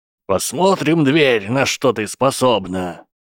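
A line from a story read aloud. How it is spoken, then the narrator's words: Older boy shouting. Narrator (Russian): крикнул мальчик постарше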